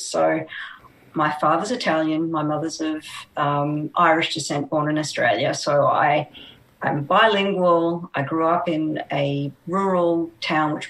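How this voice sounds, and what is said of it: Australian accent. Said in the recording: “I'm obviously Australian, as you can tell by my accent”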